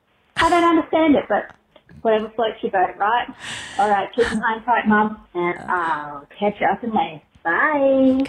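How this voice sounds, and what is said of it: Australian accent. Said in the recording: “God, I love that accent so much. I really do love the Aussie accent”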